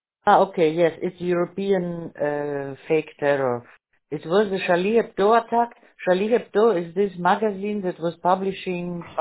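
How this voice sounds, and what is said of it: Speaks with a noticeable accent. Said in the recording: “your accent threw me for a loop”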